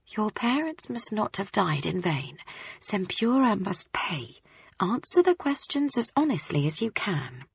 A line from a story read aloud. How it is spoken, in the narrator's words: Her bright red lips were telling me, in a whisper